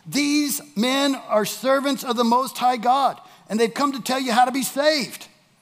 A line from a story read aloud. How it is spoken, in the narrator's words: shouting